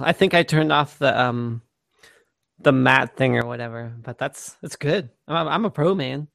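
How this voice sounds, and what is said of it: Raspy, slightly hoarse voice. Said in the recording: “I'm a little bit losing my voice ... Slightly a cold ... your voice sounds very radio-esque ... I got the good radio guy raspy voice.”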